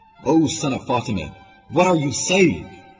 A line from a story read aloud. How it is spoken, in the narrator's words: Shame yelled